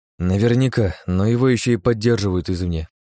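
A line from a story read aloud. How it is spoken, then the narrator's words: Sighing. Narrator (Russian): вздохнул я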